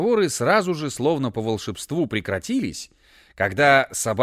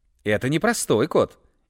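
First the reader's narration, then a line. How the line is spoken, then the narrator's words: Cheerful. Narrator (Russian): весело ответил Бананита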